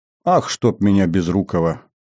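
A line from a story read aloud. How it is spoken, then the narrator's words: Pleased grinning self-scolding. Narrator (Russian): Довольно осклабившись, выругал себя тюремщик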